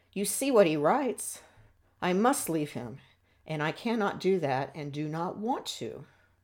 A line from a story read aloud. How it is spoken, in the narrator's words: she exclaimed